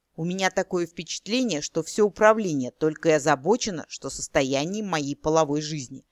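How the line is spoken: Grumbled. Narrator (Russian): проворчал Эрин

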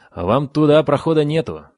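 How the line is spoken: Kobold grumbling reply. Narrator (Russian): проворчал в ответ кобальт

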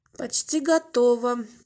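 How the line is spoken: Grumble. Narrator (Russian): пробурчала она

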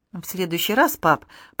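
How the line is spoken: Quiet. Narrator (Russian): промолвила тихо

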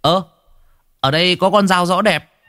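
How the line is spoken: Boy's exclamation. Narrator (Vietnamese): thằng Sang nó kêu lên

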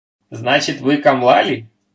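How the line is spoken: Laughing question. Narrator (Russian): смеясь спросил Майгин

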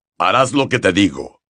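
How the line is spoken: Growled. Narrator (Spanish): gruñó

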